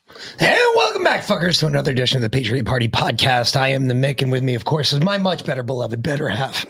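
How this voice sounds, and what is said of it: Hoarse, strained voice. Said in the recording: “You got a frog in your throat there, babe? ... Lost my voice yesterday. ... Yelling. ... Screaming for my birds.”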